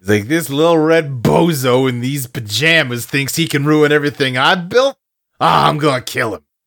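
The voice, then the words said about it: Put-on New York accent. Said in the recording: “I'm pretty sure Michael Keaton did not have that much of a New York accent, but I'm definitely giving him one.”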